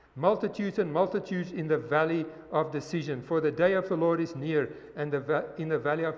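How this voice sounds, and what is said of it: Speaks with an accent. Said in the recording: “it's my accent”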